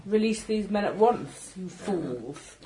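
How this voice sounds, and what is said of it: Put-on posh German accent. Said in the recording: “Are you going to use a very posh German accent, though? ... Yes.”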